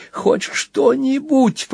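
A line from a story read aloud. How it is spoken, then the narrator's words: Groaning. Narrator (Russian): простонал Банкан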